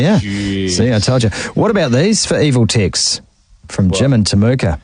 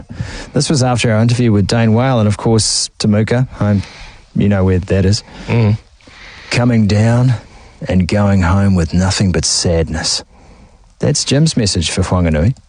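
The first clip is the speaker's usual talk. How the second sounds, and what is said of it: Mock-serious voice. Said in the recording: “I'm just going to put my serious voice on.”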